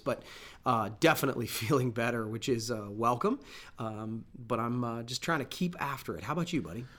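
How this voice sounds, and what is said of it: Voice sounds sick, lingering illness. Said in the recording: “I'm on the end of that sickness that I sort of had last week, not all the way through it, and you can kind of tell from my voice”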